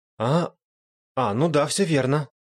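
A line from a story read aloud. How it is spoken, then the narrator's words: Hesitant. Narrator (Russian): неуверенно ответила Сирена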